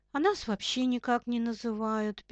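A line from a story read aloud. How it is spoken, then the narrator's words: Sad. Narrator (Russian): печально сказал шоколадный заяц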